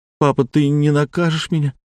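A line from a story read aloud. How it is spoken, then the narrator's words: Boy asking through tears. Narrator (Russian): сквозь слезы спросил мальчик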